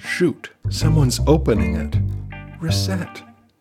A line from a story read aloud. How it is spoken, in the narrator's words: Dagny whispers